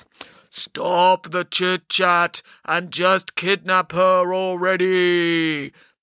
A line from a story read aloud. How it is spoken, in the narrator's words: boomed a voice from Mount Olympus